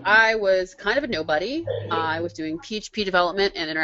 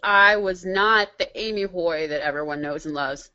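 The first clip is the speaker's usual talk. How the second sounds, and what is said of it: Sarcastic delivery. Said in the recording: “That was sarcasm”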